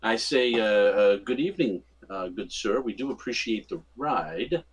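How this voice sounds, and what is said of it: Charming, ingratiating voice. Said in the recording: “in my most charming voice”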